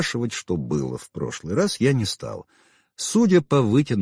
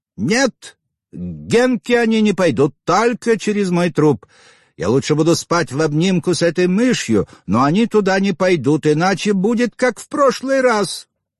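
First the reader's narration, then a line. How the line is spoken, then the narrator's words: Exclaimed. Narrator (Russian): Она воскликнула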